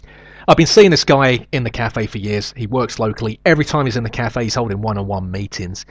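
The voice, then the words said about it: Nasal South London accent. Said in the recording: “my nasal South London accent”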